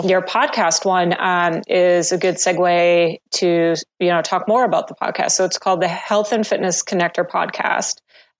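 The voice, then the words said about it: Voice sounds unwell, not recovered. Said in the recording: “I thought my voice was doing better, but it sounds not so much”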